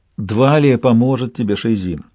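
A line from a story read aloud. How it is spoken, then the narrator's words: Soothing. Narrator (Russian): сказала Одисса успокаивающим тоном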